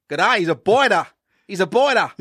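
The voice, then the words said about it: Put-on Australian accent. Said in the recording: “How about Australian? They're feeling a bit of accent life.”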